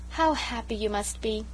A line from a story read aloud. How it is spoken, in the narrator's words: sighed Sarah Ray romantically